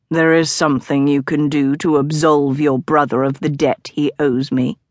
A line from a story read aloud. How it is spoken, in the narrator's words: he said